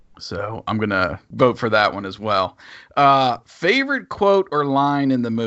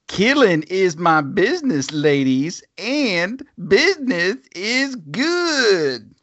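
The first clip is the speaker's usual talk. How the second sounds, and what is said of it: Impression of a movie character. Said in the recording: “I'm gonna do my best impressions on these ... That's a pretty good impression.”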